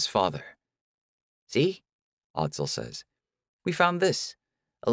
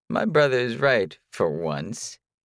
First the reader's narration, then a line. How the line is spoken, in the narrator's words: he says with an exaggerated chuckle